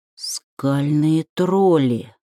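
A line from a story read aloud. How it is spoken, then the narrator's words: Almost silent whisper. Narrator (Russian): почти беззвучно прошептал он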